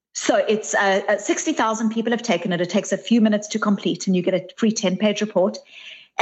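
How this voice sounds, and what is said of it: Mixed South African, Australian, Bostonian accent. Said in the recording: “My South African, Bostonian, Australian, New Zealand accent”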